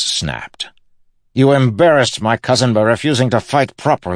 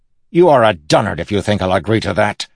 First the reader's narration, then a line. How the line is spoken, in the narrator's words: Relis snapped